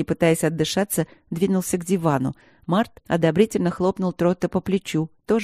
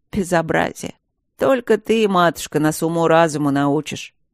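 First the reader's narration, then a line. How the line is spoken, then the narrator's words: Sarcastic howl. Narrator (Russian): Ехидно взвыл фон Сьедентент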